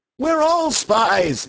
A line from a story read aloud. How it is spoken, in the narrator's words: shouted Dr